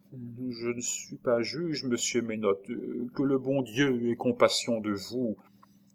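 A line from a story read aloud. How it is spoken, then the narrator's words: Murmured. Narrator (French): Madeleine murmura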